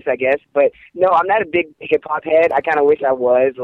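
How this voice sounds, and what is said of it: Slight Pittsburgh twang. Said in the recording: “my little Pittsburgh twang in my voice ... I could have sworn you were from New York”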